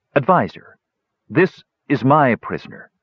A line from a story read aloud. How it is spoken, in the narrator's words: she said stiffly